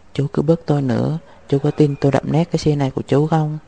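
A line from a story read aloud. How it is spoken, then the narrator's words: Fearless defiance. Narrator (Vietnamese): Lưu Ái Phàm không hề sợ hãi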